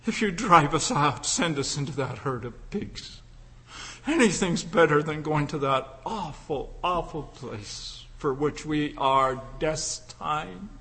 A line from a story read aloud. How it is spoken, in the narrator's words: they begged